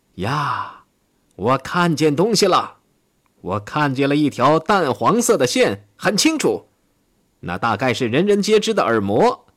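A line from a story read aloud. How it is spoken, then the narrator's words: Astonished shout. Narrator (Chinese): 他惊奇地喊道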